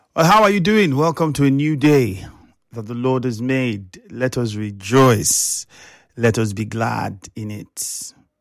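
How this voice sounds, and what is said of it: Subdued, unwell-sounding voice. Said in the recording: “pardon my voice if I'm not very upbeat. It's because I'm not feeling too good.”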